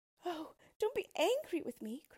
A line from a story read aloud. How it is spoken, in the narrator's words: cried the princess